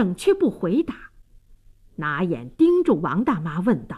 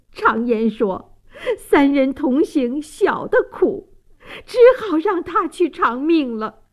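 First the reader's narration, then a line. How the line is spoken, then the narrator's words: Choked sobbing. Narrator (Chinese): 王大妈泪流满面，泣不成声，哽咽道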